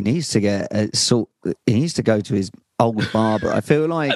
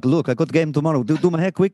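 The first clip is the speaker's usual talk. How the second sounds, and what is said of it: Put-on Brazilian accent. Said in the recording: “That's my Brazilian accent... Yeah, very good.”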